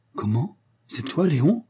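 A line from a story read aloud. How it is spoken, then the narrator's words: Surprised exclamation. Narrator (French): s'exclama l'inventeur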